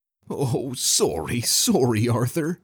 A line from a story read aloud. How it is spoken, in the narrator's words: Ruslan whimpered